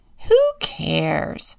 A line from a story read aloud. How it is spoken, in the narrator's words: scoffs Eagle